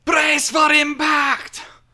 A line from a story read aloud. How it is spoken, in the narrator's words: Wavesoul shouts